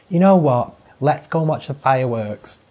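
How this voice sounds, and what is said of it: Imitates another person's voice, badly. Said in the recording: “Terrible impression of my mum ... that's a terrible impression.”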